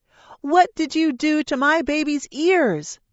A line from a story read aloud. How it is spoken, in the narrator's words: cried, more upset that she hadn't been there than the actual ear piercing